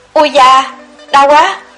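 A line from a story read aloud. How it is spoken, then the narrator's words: Pained cry. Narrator (Vietnamese): Cô kêu lên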